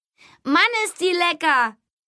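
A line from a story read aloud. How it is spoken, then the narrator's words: Calling out. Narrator (German): rief Tom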